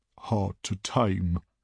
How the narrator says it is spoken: murmurs Gutpumper

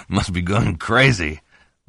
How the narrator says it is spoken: Lonnie said and laughed shakily

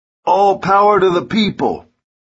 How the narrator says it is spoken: as he shouts

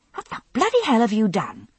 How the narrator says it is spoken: I snapped at Murta

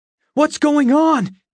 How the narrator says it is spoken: I shouted, stumbling out of my sheets

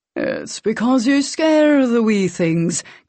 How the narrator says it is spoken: King said, mocking Alec's brogue

